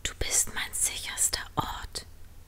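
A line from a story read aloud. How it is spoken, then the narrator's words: Whisper. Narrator (German): flüsterte sie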